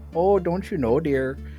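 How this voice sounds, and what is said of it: Put-on Minnesotan accent. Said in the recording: “the halflings are always Minnesotan”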